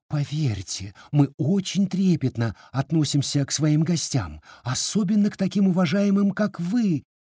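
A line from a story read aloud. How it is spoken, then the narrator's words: Flustered babbling. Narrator (Russian): лепетала начальница Гены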